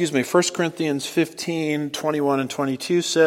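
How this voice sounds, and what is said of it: Usual voice. Nothing is said of it.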